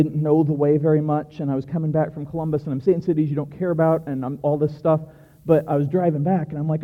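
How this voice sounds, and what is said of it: Usual voice. Nothing is said of it.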